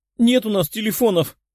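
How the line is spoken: Whining. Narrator (Russian): продолжала скулить Ната

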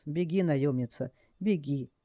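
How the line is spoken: Quiet. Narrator (Russian): тихо произнес

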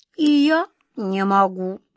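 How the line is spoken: Rueful sigh, cat. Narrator (Russian): Кот Васька сокрушенно вздохнул

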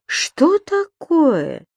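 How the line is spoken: Surprised exclamation. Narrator (Russian): удивленно воскликнул Понеделькус

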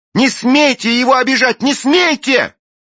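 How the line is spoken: Struggling shout. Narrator (Russian): Извиваясь, Белинда кричала

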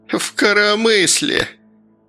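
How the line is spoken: Venomous giggle. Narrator (Russian): Гедиминов ядовито хихикнул

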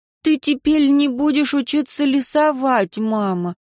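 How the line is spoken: Sorrowful sigh. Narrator (Russian): вздохнула Алекс горестно

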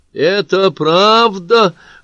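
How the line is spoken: Sudden thin little voice. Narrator (Russian): вдруг спросил кто-то тоненьким голоском

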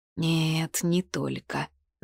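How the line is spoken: Dull moan. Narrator (Russian): застонал глухо

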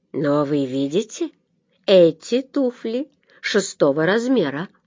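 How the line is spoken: Calm reply. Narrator (Russian): спокойно отвечал Эллери

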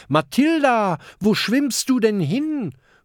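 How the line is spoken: Calling out. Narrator (German): ruft Kokosnuss

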